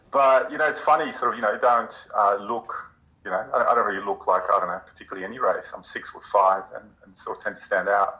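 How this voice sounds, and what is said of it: Australian accent. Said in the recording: “you sound very Australian. ... You do sound Australian.”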